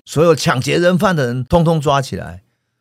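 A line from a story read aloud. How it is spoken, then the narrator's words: Sudden loud shout. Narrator (Chinese): 警察课长突然大喊一声说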